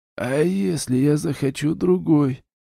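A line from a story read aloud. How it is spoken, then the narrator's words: Sad, smiling voice. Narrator (Russian): печально улыбнулся Норк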